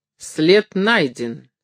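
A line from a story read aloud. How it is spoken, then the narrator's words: Slow. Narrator (Russian): отвечал он медленно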